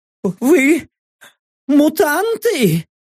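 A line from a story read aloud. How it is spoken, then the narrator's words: Trembling frightened question. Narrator (Russian): Дрожащим голосом вопросил висящий под потолком гоблин, от страха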